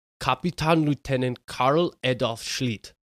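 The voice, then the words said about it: German accent. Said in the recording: “Your German accent is incredible.”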